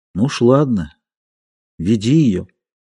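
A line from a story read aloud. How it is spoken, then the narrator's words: Quiet and hopeless. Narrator (Russian): Плюм сказал тихо и безнадежно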